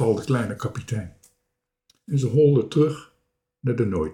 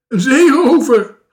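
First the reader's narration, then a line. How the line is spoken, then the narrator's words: Shriek. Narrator (Dutch): gilde Marenka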